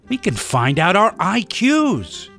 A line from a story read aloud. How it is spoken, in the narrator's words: He said in an excited tone